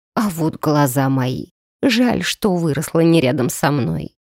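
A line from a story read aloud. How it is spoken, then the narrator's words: Sad creaky voice. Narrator (Russian): грустно проскрипела она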